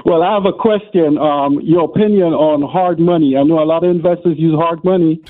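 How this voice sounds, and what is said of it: Speaks with a foreign accent. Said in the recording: “we know that accent”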